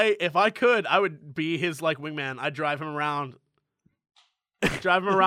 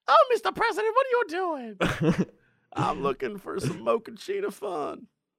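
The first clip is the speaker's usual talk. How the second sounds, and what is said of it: Put-on Harlem woman's voice. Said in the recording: “my Harlem girl voice ... my girl voice in general”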